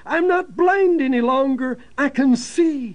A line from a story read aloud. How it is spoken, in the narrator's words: She cried out